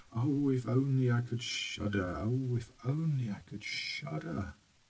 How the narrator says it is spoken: The boy began muttering to himself

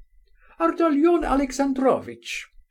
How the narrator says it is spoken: she cried after him

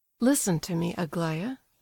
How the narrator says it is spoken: said the prince

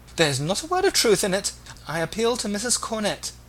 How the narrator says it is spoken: exclaimed the discomfited Agnes

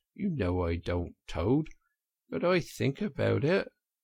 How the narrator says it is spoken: he added rather pathetically in a lower tone

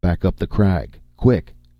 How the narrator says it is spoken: snapped Conan

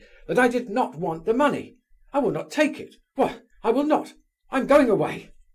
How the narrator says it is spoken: shouted Burdovsky furiously

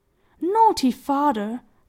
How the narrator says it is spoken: cried Peony

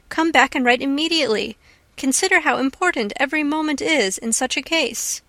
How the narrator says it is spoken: she cried

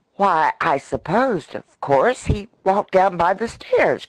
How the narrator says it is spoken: cried Freckles

